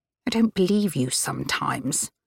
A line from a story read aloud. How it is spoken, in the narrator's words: Annabelle muttered